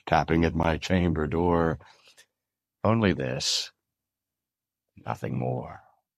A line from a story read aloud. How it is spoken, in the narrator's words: I muttered